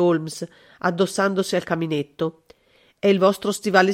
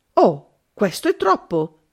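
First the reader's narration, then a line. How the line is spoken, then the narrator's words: Exclamation. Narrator (Italian): esclamai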